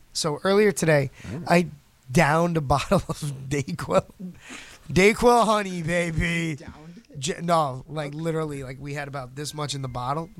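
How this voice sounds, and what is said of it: Congested, sick-sounding voice. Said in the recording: “my voice is very like... bro, you sick?... I have a sinus infection. Like right here. Everything.”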